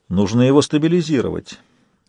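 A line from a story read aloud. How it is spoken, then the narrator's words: Calm advice. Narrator (Russian): спокойно посоветовал Сумрак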